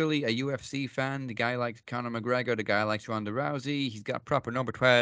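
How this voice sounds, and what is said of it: Usual voice. Nothing is said of it.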